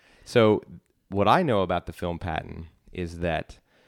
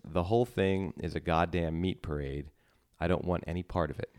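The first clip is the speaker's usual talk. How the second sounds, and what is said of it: Imitates another person's voice. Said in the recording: “in my Jack Miller voice. ... That's George C. Scott.”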